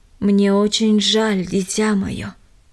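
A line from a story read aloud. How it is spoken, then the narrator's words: Plain. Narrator (Russian): сказал он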